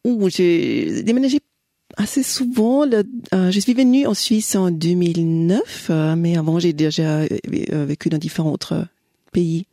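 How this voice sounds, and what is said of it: Austrian accent in French. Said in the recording (French): “vous êtes autrichienne, hein, c'est explique oui, votre accent.”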